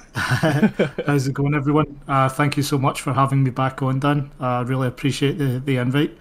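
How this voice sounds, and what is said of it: Deep Scottish accent. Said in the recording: “that voice that you heard, that just deep Scottish accent”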